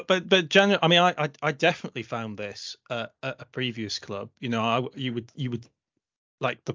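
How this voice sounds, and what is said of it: Usual voice. Nothing is said of it.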